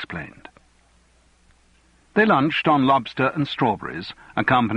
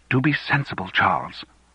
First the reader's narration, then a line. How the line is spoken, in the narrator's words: whispered Fiona